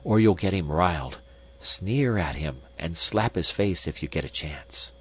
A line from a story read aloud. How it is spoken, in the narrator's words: whispered to the insect